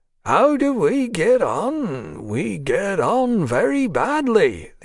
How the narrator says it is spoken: the old man drawled, as if it gave him pleasure

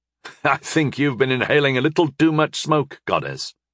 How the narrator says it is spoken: I chuckled

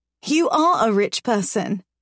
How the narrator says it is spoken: I laugh

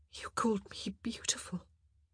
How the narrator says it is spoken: she whispered

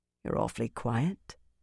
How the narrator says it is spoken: Birgitta said softly

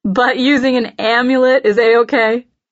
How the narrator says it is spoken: I laugh

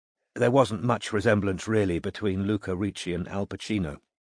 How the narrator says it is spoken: said Gloria dryly

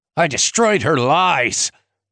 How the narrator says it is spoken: Hannah spat

